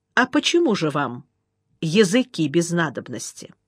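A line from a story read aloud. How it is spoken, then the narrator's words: Calm quiet question. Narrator (Russian): Потому и спросил спокойно и негромко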